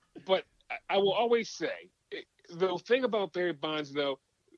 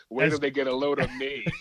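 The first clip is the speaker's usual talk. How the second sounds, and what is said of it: Jack Nicholson impression. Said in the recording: “in my Jack Nicholson voice”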